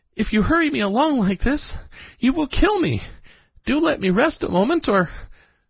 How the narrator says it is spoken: at last he gasped out

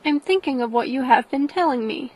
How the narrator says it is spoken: said she

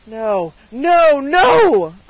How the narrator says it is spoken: cried the peddler, in a voice and with a manner that startled Dunwoodie

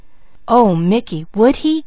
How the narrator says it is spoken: gasped Peaches

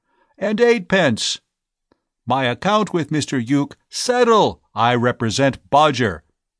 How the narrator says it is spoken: voice lost in the general roar

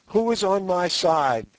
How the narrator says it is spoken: cried Sorais

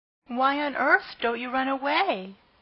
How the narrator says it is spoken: exclaimed the horrified Pigling

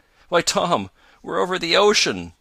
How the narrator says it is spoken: he cried

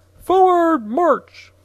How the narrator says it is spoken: the captain screamed to the private

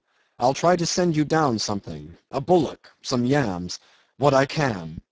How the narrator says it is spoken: called out Jim

